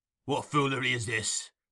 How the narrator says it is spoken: demanded Sykes

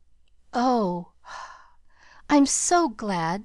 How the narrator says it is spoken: sighed Pollyanna

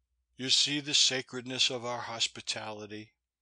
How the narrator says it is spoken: I said bitterly to Maud Brewster

